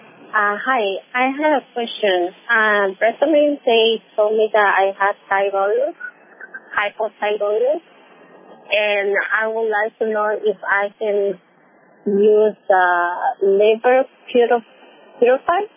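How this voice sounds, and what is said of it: Slight accent. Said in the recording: “you have a little bit of an accent”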